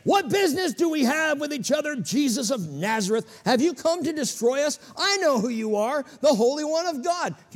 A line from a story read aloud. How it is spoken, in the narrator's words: he cried out, saying